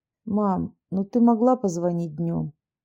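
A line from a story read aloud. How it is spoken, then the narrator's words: Sleepy voice. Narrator (Russian): сонным голосом ответил родительница Владислав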